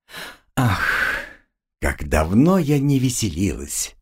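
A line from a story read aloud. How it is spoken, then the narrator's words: Sighed. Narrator (Russian): Вздохнула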